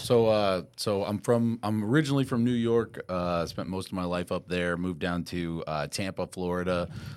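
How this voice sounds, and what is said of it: Deep, smooth radio voice. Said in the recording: “I got the radio voice ... You really do.”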